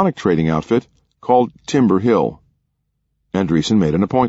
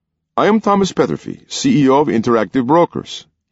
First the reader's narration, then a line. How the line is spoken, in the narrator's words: he said in a thick Hungarian accent